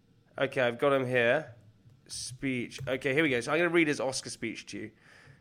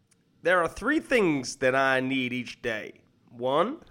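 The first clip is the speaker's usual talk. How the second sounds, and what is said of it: Imitates another person's accent. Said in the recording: “I'm gonna do it in his accent”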